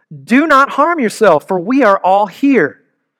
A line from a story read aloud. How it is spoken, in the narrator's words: Paul cried with a loud voice